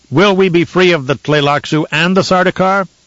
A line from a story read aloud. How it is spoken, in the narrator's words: someone shouted